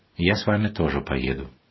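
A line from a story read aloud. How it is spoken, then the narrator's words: Calm. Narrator (Russian): отец Василий спокойно сказал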